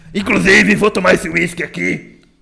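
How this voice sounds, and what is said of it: Imitates another person's voice. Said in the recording (Portuguese): “Tô imitando agora quem? É Bolsa Lula”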